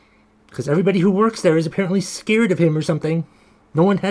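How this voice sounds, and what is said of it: Usual voice. Nothing is said of it.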